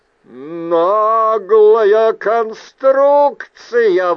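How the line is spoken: Howl. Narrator (Russian): взвыл Логрус

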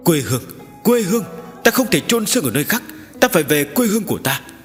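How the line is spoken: Skeletal dragon's hissing roar. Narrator (Vietnamese): Vị xương khô thần long này rời khỏi mặt nước, đứng dậy mở miệng rít gào

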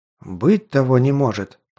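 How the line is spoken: Muttering. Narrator (Russian): пробормотал он

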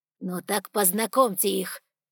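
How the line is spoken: Dragon barking. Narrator (Russian): рявкнул дракон

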